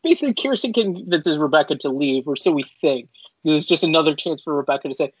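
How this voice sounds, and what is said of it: Usual voice. Nothing is said of it.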